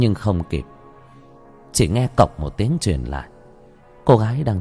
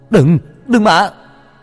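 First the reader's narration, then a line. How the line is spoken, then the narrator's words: Shouted. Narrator (Vietnamese): hét lên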